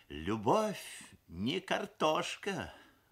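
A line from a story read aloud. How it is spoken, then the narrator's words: Sighing mother. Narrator (Russian): вздохнула мамаша, шеф-повар фабрики кухни номер 7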